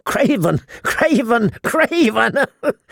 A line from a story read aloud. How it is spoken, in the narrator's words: He giggled hysterically